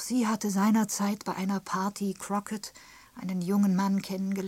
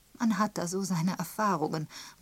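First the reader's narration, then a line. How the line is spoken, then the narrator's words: Reminiscent murmur. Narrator (German): murmelte Miss Marple, in die Vergangenheit zurückschweifend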